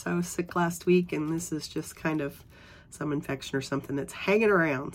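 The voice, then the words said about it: Hoarse voice. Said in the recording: “forgive my voice, I'm a little bit hoarse.”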